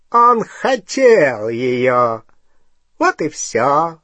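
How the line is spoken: Mocking tone. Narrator (Russian): насмешливо сказал Волан-де-Морт

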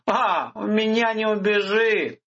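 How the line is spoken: Chuckling, mimicked intonation. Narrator (Russian): хохотнул Виктор с такой же интонацией, которую слышал у Нури

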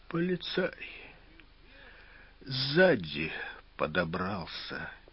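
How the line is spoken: Quiet reply. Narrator (Russian): тихим голосом ответил Фогель

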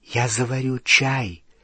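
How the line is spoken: Whisper. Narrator (Russian): шепотом сказала Гермиона

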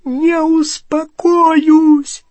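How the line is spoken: Shrieking. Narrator (Russian): завизжала она

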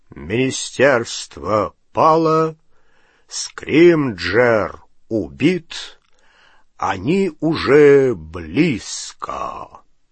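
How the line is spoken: Loud, low, drawling male voice. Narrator (Russian): Патронус громким, низким, тягучим голосом Кингсли Бруствера сообщил

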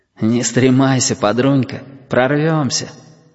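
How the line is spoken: Hoarse breathy voice. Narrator (Russian): хрипловато дохнули

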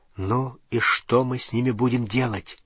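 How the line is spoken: Soft whisper. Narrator (Russian): тихо прошептал в темноте Рон

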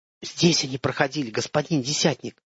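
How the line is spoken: Hissing whisper. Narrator (Russian): свистящим шепотом ответил Виктор

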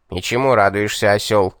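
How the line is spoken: Demon's grumbling mutter. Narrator (Russian): пробурчал бес

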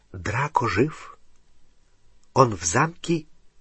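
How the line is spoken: Barely audible close whisper. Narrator (Russian): Еле слышный шепот в дюйме от его уха

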